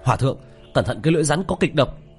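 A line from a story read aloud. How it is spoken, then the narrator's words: Shouting. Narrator (Vietnamese): hét lên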